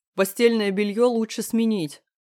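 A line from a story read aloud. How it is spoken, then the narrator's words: Shouted. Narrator (Russian): крикнул Леха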